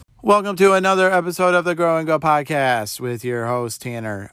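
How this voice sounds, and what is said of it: Flat monotone delivery. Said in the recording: “that was the most monotone intro I think I've ever started with”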